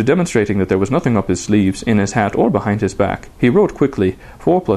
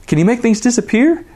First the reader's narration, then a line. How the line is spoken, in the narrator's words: asked Milo excitedly